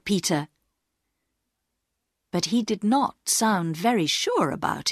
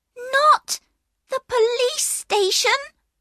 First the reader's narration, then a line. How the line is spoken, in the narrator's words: cried another voice